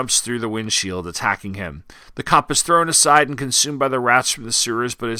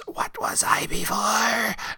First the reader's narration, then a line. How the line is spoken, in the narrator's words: Vermin hisses